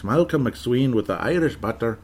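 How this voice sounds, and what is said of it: Playful put-on Irish accent. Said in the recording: “that is an Irish name ... I hope you don't mind me doing the accent”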